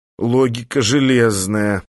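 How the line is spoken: Groan. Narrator (Russian): простонал Эстерсон

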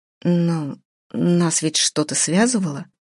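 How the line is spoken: Uncertain, hesitant. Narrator (Russian): неуверенно предположила Наташа

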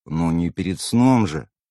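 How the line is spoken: Sighing, swallowing. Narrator (Russian): вздохнул я, сглотнув слюну

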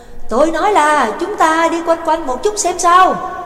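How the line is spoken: Shouted close to ear. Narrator (Vietnamese): Nhạc Dương ghé miệng sát tai của Trắc Mộc Cường Ba hét lên

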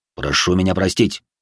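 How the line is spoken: Mutter. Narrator (Russian): пробормотал Хадзиме

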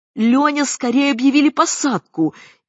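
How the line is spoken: Hysterical shout. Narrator (Russian): истерически крикнула Маргарита Исаевна

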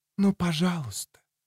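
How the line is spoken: Whispered repetition. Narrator (Russian): повторила она шепотом

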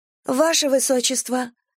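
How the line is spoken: Astonished breathless exhale. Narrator (Russian): выдохнула изумленная Рен

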